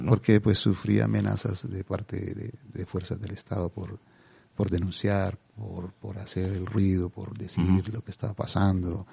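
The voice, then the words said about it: Calm, soft Colombian Spanish accent. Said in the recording (Spanish): “como eres colombiano y hablas con tu acento colombiano, que a nosotros nos suena muy tranquilo, muy sosegado”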